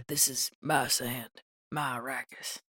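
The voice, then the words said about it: Attempted Elvis impression voice. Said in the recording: “that was my Elvis impression ... That was a good impression, but not of Elvis ... A good voice ... that pretty mama. Voice.”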